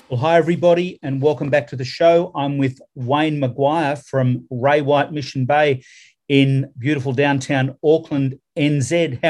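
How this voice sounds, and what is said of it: Slight Australian accent. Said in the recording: “nice to hear that accent too. I can pick a bit of Australia in there.”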